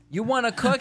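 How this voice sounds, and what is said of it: South Bronx New York accent. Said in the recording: “A New York accent. ... Her South Bronx you accent.”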